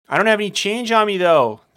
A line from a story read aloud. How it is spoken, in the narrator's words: yelled back